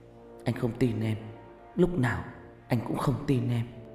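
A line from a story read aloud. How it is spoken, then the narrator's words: Muttering. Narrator (Vietnamese): miệng lẩm bẩm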